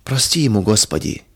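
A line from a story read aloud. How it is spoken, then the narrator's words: Quiet dismayed whisper. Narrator (Russian): тихо шептала Федора, удивляясь грубости и черствости мужа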